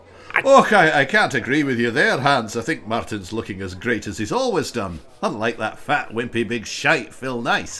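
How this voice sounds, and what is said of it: Bad put-on Scottish accent. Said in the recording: “bad Scottish accent”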